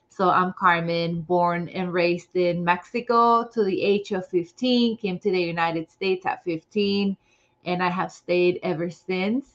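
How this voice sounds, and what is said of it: Slight non-native English accent. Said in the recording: “English is my second language, so there's a little bit of an accent there.”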